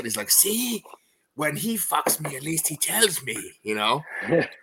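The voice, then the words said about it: Imitates another person's voice. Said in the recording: “my Paul Verhoeven impersonation”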